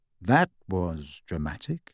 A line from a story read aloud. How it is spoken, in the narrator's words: said Harry coolly